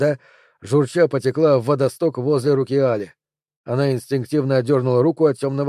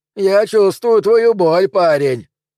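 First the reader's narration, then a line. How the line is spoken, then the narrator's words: Shouted. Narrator (Russian): крикнул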